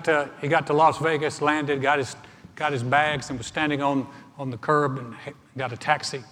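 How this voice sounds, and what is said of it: Usual voice. Nothing is said of it.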